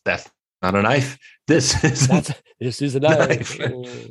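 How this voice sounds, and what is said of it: Bela Lugosi impression. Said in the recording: “Lugosi in his accent”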